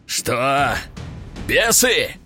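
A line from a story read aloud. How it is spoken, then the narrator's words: Growled. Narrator (Russian): рыкнул тот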